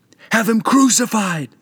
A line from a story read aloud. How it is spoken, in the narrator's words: all cried